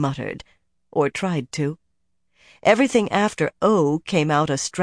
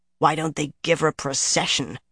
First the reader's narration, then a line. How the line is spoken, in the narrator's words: Nynaeve growled